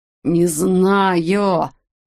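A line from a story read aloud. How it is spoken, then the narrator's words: Hoarse wheeze. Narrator (Russian): прохрипел Уэтик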